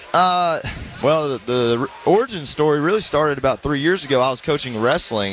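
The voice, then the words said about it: Georgia Southern US accent. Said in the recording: “I want to hear a little Georgia accent ... you're going to hear the accent ... I got it already”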